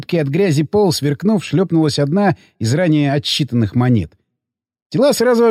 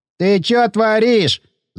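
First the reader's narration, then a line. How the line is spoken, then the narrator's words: Whining. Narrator (Russian): заскулило тело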